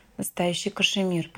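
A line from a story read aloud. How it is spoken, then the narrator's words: Whisper in the ear. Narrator (Russian): прошептала Алина на ухо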